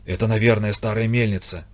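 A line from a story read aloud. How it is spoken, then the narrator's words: Whisper. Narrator (Russian): почему-то шепотом сказал Спартак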